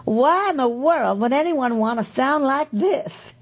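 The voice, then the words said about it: Thick Southern drawl imitation. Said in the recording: “drawl, which is thick as molasses... That's just my attempt to imitate her.”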